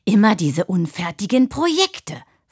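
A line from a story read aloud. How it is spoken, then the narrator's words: Impressive snapping. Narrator (German): fauchte, was beeindruckend klang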